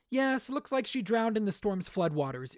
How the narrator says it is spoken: Ulim said

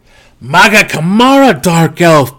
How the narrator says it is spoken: Belwar shouted at him

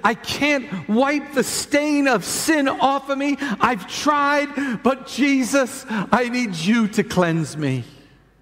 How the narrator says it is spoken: cried out and said

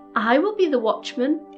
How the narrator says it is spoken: The little hare called out

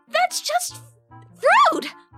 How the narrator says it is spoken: She shouted at him

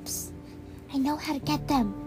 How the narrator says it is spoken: Sharon whispered to Andrew

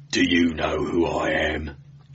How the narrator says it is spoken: he growled

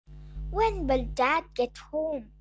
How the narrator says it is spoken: Sam sighed

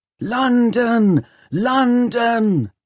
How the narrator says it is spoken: Tom shouted, adding his voice to the cheers and shouts of everybody else on the platform

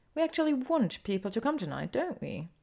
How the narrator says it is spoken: He laughs again, this time in the genuine way

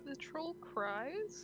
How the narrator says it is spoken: Like cries out

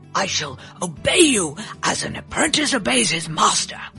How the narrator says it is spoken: cried the wolf

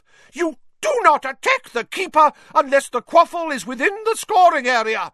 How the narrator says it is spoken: she shrieked at Bole and Derrick

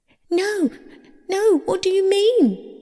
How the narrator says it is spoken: cried Persephone

